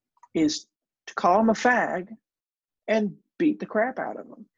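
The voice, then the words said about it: Put-on Southern US accent. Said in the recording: “you're putting on a like, southern accent”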